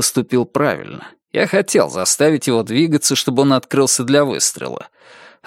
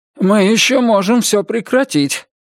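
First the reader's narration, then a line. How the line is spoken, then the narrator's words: Breathed out. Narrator (Russian): выдохнул Тьяго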